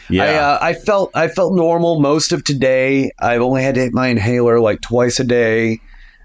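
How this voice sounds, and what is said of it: Voice not fully recovered. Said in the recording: “This is about as good as my voice is going to get. ... It sounds pretty sexy.”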